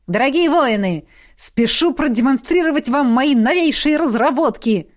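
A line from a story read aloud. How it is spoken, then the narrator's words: Exclaiming. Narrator (Russian): воскликнул Трорин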